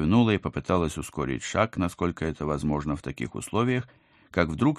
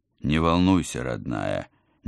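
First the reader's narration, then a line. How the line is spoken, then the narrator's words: Uncertain, smiling. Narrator (Russian): неуверенно улыбнулся командор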